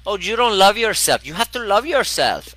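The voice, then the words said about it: Put-on Venezuelan accent. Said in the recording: “She's she's got this beautiful uh, Venezuelan accent.”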